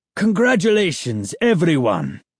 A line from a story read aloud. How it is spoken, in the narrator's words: boomed